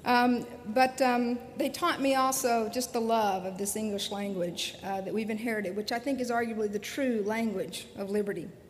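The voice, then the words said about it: Slight Alabama Southern accent. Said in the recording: “a girl from the hills of Alabama ... You can hear the accent coming through a little bit tonight”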